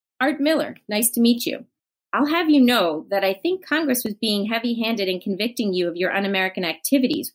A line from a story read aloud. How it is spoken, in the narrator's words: Roland said